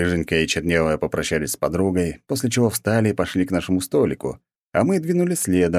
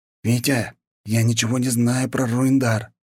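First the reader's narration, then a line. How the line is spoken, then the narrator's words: Bewildered whisper. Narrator (Russian): растерянно прошептал Гриша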